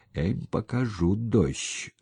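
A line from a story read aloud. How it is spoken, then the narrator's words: Through gritted teeth. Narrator (Russian): сквозь зубы процедил Сапко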